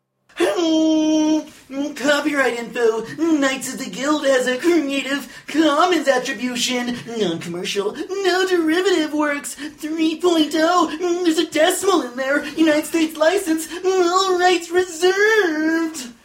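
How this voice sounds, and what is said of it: Strained breathless put-on character voice. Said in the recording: “doing that voice is no oxygen ... Literally halfway through, I'm like, I may pass out during this.”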